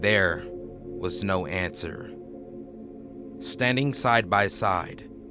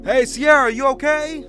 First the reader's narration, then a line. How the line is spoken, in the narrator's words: shouted